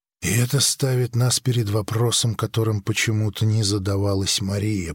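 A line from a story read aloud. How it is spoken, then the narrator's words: Whispered to himself. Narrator (Russian): прошептал самому себе Грик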